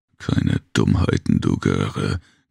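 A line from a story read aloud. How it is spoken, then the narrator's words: Giant's guttural dialect growl. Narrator (German): knurrte der Riese in einem breiten, kehligen Dialekt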